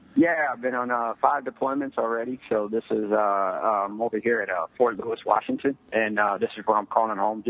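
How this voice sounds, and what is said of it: Noticeable regional accent. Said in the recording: “I like your accent.”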